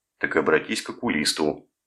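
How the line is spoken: Rude retort. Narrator (Russian): грубо парировал солдат

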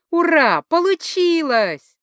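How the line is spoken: Joyful yelling, familiar female voice. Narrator (Russian): радостно орал смутно знакомый женский голос

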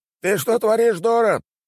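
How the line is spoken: Shout. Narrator (Russian): кричал посетитель таверны

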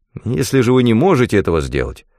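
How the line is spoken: Plain. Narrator (Russian): сказал Аленсон

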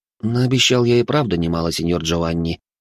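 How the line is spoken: Wry chuckle. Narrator (Russian): хмыкнул я

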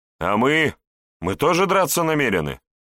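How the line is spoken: Loud shout. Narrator (Russian): громко выкрикнул боярин Даниил

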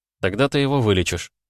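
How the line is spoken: Calm. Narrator (Russian): спокойно ответил

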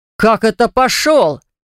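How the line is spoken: Roar. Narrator (Russian): взревел Левон ей в спину

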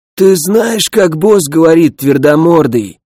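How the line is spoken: Hoarse bandit's rasp. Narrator (Russian): хрипел местный хунхуз

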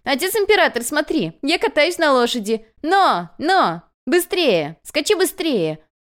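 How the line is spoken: Child laughing, shouting. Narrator (Russian): Мальчик смеялся и кричал

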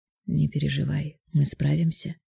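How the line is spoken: Soft whisper. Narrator (Russian): тихонько шепнул невесте на ушко он

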